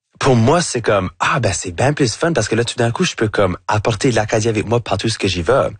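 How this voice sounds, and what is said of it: Acadian French accent. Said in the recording (French): “votre accent acadien ... j'ai un accent qui va jamais être neutre”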